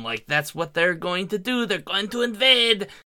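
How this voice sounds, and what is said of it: Briefly slips into a put-on accent. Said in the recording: “I don't know why that accent came out”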